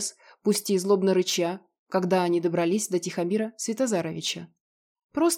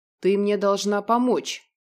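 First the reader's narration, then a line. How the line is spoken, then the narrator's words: Predator's growl. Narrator (Russian): зарычал хищник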